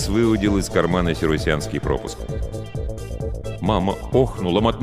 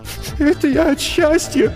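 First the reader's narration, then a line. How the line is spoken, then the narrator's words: Sobbing mutter. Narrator (Russian): Сквозь всхлипы пробормотала она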